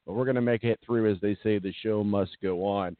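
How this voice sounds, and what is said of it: Voice not working properly, strained. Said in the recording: “apologize for my voice. It's just not cooperating.”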